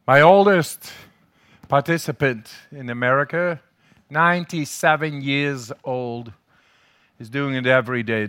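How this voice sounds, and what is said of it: Dutch accent in English. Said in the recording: “They call me the German. ... I'm the crazy Dutchman, man. Must be my accent in English.”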